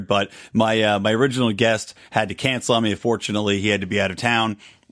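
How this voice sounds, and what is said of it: Slightly worn-out, scratchy voice. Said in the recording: “Do I sound more like a radio DJ today? ... my voice is a little scratchy here. Not scratchy per se. It's a little bit worn out”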